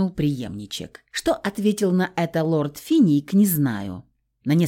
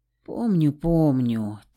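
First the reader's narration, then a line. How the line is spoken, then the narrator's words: Heavy sigh. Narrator (Russian): тяжело вздохнул Альберт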